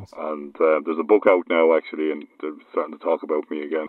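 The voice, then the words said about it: Regional Irish accent. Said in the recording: “you are from Ireland, I'd say? ... You have a kind of a regional bog-trotting accent?”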